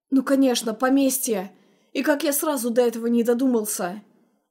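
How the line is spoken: Young man's exclamation. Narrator (Russian): Воскликнул молодой человек

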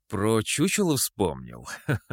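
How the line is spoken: Laughing. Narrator (Russian): засмеялся

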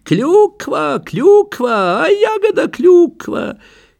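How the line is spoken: Laughing. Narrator (Russian): Кипренский рассмеялся

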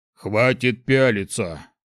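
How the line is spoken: Grumbling with mouth full. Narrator (Russian): проворчал Шухраг с набитым ртом

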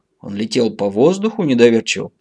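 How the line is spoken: Plain. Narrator (Russian): спросила Поликсена

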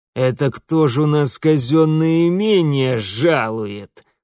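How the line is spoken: Mocking snort. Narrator (Russian): насмешливо хмыкнул урядник

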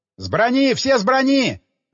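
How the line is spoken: Commander yelling. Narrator (Russian): орал командир отделения

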